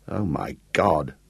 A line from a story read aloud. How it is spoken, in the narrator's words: sighed Gareth